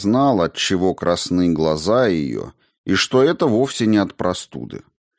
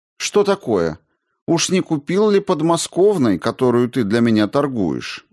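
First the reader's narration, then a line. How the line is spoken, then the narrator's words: Cheerful question. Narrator (Russian): весело спросила Линдина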